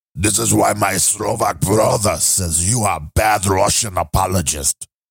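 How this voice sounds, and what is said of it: Badly imitated Slovak accent. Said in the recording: “That accent was even worse than his actual accent.”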